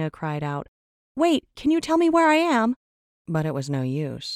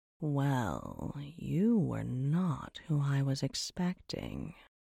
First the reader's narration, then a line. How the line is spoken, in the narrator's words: drawled a voice from somewhere above her